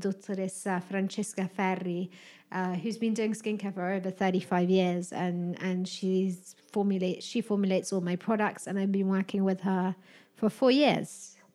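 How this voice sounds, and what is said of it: British accent. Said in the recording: “your British accent”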